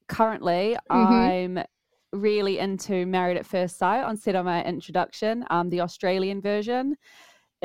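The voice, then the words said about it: New Zealand accent. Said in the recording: “I'm from the UK, funny enough, but I grew up in New Zealand, hence the accent.”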